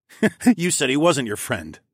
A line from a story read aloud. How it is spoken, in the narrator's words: I chuckled